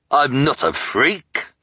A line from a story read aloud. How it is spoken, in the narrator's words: the hook-handed man snarled impatiently